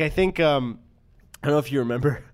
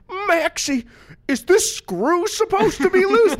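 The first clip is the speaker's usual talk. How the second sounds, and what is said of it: Weak Goofy cartoon voice impression. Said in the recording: “Not my best Goofy impression. I can do a better one, but right now it's not very good.”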